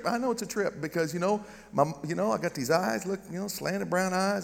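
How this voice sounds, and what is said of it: Southern American accent. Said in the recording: “I got this dumb Southern accent.”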